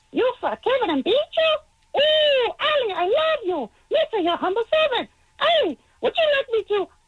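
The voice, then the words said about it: Jar Jar Binks impression. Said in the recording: “do a Jar Jar Binks impression”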